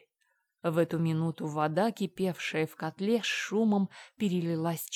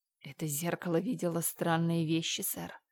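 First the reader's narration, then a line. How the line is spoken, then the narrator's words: Whisper. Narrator (Russian): шепнул Пуль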